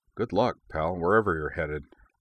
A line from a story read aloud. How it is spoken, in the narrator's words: he muttered to the unseen pilot